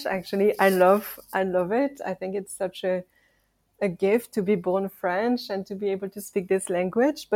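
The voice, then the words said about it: French accent in English. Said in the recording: “I have this accent and I'm French”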